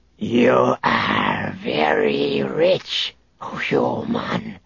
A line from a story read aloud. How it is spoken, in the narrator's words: the Drachmarian warlord hissed through the speakers of her helmet